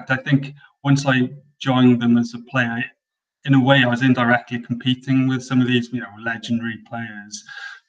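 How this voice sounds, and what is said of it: Welsh accent. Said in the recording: “we can obviously detect a Welsh accent”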